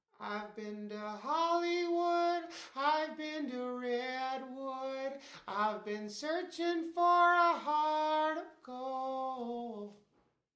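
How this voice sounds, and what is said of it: Sung imitation of another singer's voice. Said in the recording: “do a killer impression of Neil Young”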